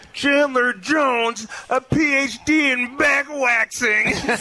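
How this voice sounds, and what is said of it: Imitates another person's voice. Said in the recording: “can I impersonate him really fast? ... That was awful. ... I sound just like him. ... That sound was awful.”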